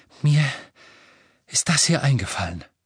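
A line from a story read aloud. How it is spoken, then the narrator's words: Panting. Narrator (German): keuchte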